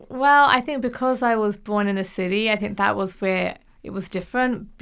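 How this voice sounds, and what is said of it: English accent. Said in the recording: “I love the accent, by the way... born in England”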